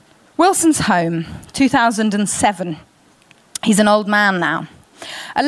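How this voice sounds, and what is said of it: Usual voice. Nothing is said of it.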